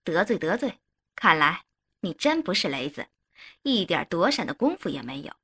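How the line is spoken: Hearty laughter. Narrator (Chinese): 黑泥鳅哈哈大笑

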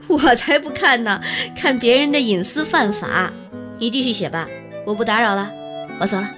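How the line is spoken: Laughing. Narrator (Chinese): 连长笑了，说道

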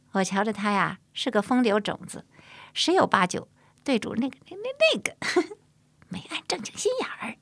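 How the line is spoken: Laughing. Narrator (Chinese): 唐和笑着说

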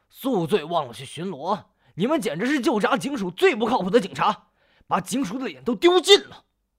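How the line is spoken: Furious scolding. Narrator (Chinese): 包康怒不可遏地厉声呵斥

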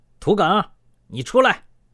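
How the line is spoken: Shout. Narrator (Chinese): 忽听院门处响起了一声喊

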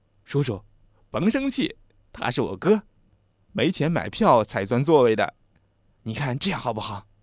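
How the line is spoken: Chuckling. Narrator (Chinese): 小辫子给列车员深深的鞠了一躬，嘿嘿的笑着说

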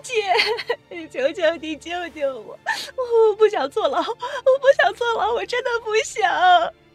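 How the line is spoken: Sobbing. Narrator (Chinese): 沈卫婷 痛哭

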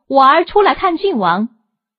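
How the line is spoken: Calling out. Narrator (Chinese): 桥下表背铺里一个人叫道

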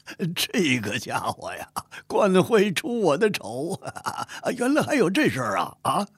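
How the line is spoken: Loud laughter. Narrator (Chinese): 嫉妒哈哈大笑

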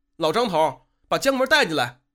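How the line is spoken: Puzzled call outward. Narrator (Chinese): 不明白这是怎么一回事，便冲门外喊了声

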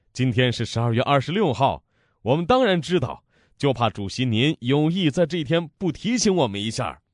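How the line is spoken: Laughing. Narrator (Chinese): 卫士长笑了

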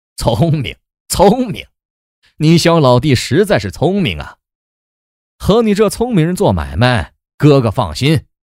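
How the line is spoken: Hearty laughter. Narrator (Chinese): 钱大人即是愉快，大笑着说

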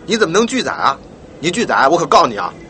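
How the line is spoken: Stern male scolding. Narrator (Chinese): 那位男乘客便厉声呵斥起来

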